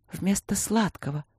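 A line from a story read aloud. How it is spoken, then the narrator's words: Whispered. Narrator (Russian): шепнула Катя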